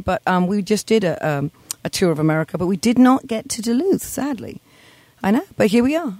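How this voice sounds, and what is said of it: Clearly non-local accent. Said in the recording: “You can obviously tell with this accent that there's a very little reason I would come up here”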